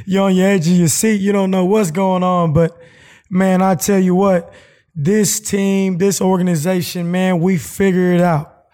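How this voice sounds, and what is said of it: Low, dimmed strained voice. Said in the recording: “my voice is a little bit low, a little bit dimmed, should I say. You know, a lot of screaming yesterday”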